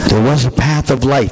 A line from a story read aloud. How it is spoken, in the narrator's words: the old one muttered